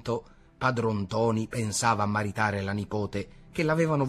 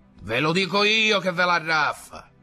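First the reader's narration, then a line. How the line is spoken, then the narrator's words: Persuasive shout in ear. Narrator (Italian): gridava nell'orecchio per persuaderlo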